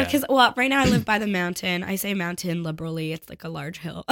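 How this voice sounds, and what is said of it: Usual voice. Nothing is said of it.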